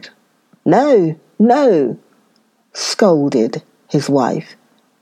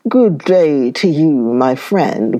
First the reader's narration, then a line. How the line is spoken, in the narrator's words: growled the bear